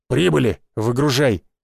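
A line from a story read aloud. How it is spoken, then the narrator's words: Barked command. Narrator (Russian): рявкнул охранник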